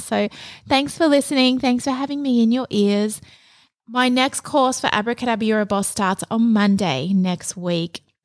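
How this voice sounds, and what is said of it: Soft voice, sore throat. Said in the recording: “I have a very sore throat in case you can't tell. My voice is a little bit softer today because I've been recording course modules all week”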